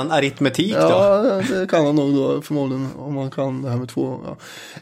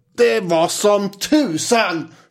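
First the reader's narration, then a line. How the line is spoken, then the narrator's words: Screaming. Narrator (Swedish): skrek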